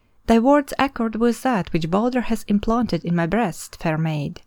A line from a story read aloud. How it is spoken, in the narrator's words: replied Frithiof